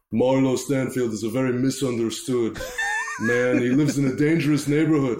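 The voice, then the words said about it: Imitates another person's voice. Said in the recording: “that's a really good impression ... That was really good.”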